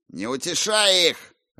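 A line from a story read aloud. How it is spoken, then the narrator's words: Barked. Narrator (Russian): рявкнул каноник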